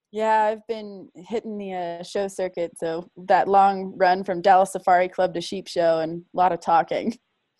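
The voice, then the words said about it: Rough, hoarse-sounding voice. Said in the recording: “I sound a little rough,”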